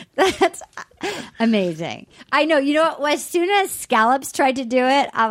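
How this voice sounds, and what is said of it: Usual voice. Nothing is said of it.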